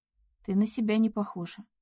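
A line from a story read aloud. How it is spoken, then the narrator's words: Quiet. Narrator (Russian): тихо сказала Надя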